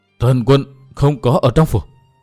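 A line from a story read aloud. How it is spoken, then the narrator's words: Old man, trembling voice. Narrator (Vietnamese): lão đáp qua giọng run run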